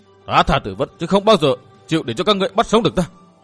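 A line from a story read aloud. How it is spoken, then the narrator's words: Hissing, desperate vengeance. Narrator (Vietnamese): Bởi hắn liều chết để báo phụ thù, hắn rít lên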